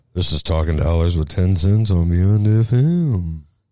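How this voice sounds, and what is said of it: Super deep radio announcer voice. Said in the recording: “Super deep voice. ... That was my professional radio voice.”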